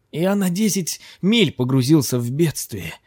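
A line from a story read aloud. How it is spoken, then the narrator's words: Exclaiming. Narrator (Russian): воскликнул Махрат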